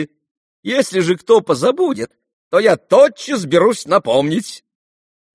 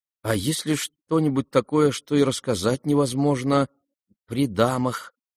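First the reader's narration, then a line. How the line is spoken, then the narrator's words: Timid, young man. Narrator (Russian): робко заметил молчавший юноша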